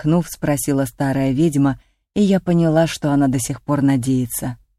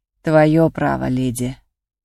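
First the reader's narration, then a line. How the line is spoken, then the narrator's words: Witch with heavy sigh. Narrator (Russian): вздохнув еще тяжелее, сказала ведьма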